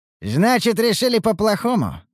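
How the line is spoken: Mocking snort. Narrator (Russian): хмыкнул Ругар

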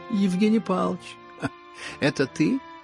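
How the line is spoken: Sudden ringing shout. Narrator (Russian): крикнул вдруг звонкий, прекрасный голос

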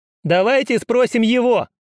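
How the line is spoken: Shouting from the back. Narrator (Russian): крикнул кто-то из задних рядов

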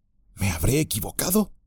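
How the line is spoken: Murmured. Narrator (Spanish): murmuró

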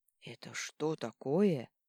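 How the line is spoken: Hoarse question. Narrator (Russian): хрипло поинтересовался он

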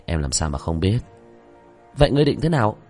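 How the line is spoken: Sighing. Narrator (Vietnamese): Vương Quân Diệt thở dài

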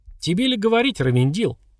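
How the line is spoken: Laughing. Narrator (Russian): засмеялся Лич

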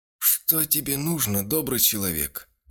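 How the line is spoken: Forced, strained. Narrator (Russian): выдавил из себя

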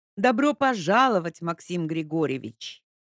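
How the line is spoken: Enthusiastic, deliberately loud. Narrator (Russian): Ника воодушевленно, нарочито громко сказала

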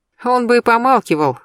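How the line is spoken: Snort. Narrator (Russian): хмыкнул Димка

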